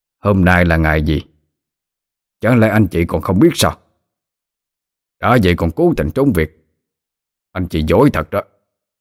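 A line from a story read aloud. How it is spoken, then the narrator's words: Harsh, sharp. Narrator (Vietnamese): ông ta gay gắt nói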